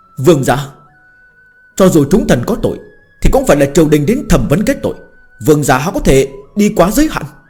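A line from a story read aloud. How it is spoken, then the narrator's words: Struggling, shouting. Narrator (Vietnamese): Huyền Đại Lưu Lam Mậu dãy dụa hò hét nói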